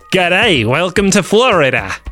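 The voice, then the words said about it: Very bad put-on accent. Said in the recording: “This is about the worst accent I've ever done.”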